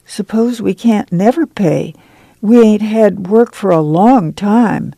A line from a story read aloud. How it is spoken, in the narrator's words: Joyce said timidly